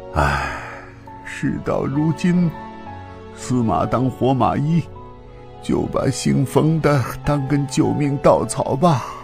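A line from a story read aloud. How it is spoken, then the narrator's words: Inner grumbling muttering. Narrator (Chinese): 他心里嘀咕道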